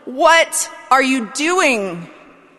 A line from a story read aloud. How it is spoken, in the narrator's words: I would have yelled at him